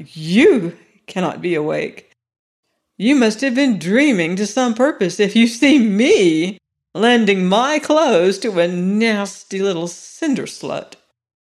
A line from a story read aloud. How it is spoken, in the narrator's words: snapped Miss Caroline